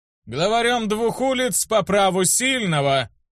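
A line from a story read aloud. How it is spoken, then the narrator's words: Loud. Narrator (Russian): громко проговорил Никон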